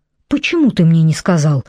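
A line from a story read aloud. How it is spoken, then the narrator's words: Indignant cry. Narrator (Russian): возмущенно вскричала Телли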